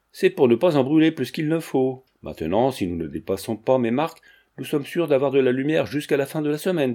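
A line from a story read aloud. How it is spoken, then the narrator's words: Almost cheerful. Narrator (French): dit Georget, presque gaiement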